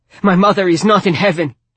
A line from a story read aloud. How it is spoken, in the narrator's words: Dobry shouted